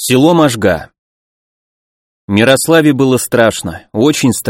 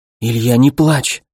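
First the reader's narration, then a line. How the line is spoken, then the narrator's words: Whispered. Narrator (Russian): шептала Мирослава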